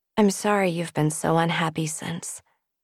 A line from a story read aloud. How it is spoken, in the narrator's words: she said quietly